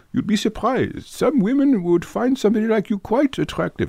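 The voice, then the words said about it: Imitated English-German accent, not great. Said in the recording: “English or German?... Oh, has a tricky accent... Yeah, I didn't do it so great.”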